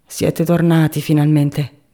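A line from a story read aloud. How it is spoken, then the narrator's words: Sour tone. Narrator (Italian): disse ella in tono agro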